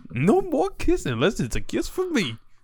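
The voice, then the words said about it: Good Tom Cruise impression. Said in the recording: “That's a good Tom Cruise impression.”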